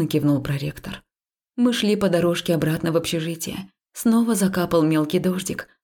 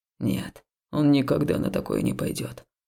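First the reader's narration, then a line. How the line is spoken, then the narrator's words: Quiet reply. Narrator (Russian): негромко ответил Хаул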